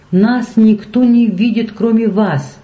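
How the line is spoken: Pleading tone. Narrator (Russian): умоляющим тоном сказал Шар

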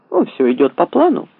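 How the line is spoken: Cheerful reply. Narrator (Russian): бодро ответил

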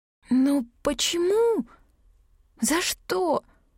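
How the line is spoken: Hoarse strained whisper. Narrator (Russian): Сиплый шепот царапал сжавшееся в спазме горло

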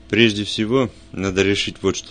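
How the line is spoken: Plain. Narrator (Russian): сказал я

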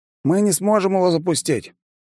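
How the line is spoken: Hmph. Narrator (Russian): я хмыкнул

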